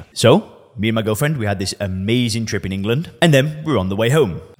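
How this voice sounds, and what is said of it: Northwest English Lancashire accent. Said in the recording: “where on earth is this accent from? Well, I'm from Lancashire. I'm from the northwest of England.”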